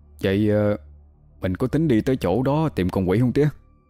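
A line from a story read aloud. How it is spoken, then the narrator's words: Hesitant quiet question. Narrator (Vietnamese): Thấy vẻ mặt thầy ba có chút lo âu, thằng Bần ngập ngừng hỏi nhỏ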